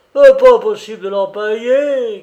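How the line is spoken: Shouting. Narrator (French): cria-t-il

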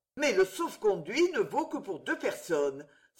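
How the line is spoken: Pained exclamation. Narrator (French): s'écria-t-il avec douleur

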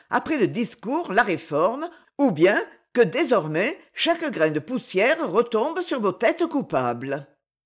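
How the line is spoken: Cheerful. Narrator (French): reprit gaiement

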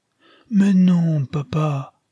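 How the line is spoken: Sobbing exclamation. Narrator (French): s'écria Nastia en sanglotant

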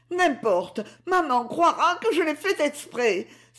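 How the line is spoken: Anguished cry. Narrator (French): s'écria Monique dans son angoisse

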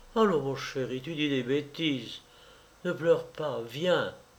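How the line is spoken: Murmured. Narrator (French): Elle murmura

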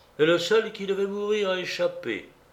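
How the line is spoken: Sad reply. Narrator (French): répondit tristement Sonia

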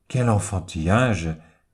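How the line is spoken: Man exclaiming. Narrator (French): s'écrie le futur chanoine

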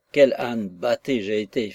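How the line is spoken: Slow, terrified. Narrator (French): fit-il très lentement, avec un accent d'épouvante

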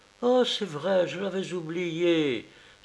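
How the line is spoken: Joyful exclamation. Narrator (French): s'écria-t-elle joyeusement

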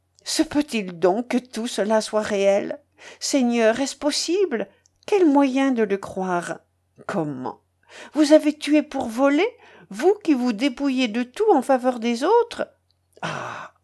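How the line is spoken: Sudden cry. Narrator (French): s'écria-t-elle soudain

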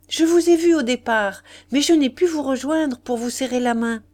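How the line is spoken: Exclaiming. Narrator (French): s'écria-t-il

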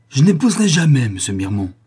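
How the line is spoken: Trembling exclamation. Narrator (French): s'écria Camille, les lèvres frémissantes

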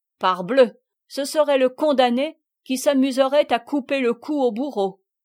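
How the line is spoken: Exclaimed. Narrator (French): s'écria Contenson

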